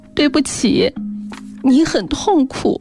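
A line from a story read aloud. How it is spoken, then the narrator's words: Crying. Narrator (Chinese): 小野哭着……说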